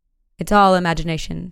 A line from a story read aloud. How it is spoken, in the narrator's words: said he, but he spoke in a vexed tone